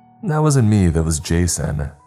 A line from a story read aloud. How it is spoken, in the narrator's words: he laughed